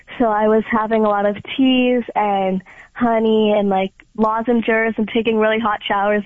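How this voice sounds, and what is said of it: Slightly raspy voice from cold. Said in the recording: “please don't mind my voice. I'm still kind of getting over a cold, so that's why it's a little raspy.”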